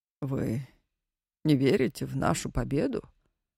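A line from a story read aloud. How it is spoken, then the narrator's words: Calm question. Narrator (Russian): спокойно спросил Инзовский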